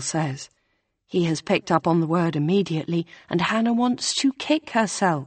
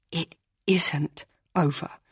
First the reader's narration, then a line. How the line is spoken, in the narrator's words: Hannah wants to say through gritted teeth